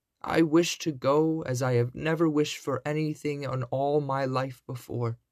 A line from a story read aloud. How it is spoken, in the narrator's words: cried Cinderella